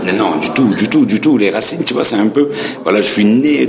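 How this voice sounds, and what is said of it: Slight French accent. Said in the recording (French): “tu entends l'accent que j'ai ... gommer un petit peu l'accent français ... j'ai ce petit accent charmant”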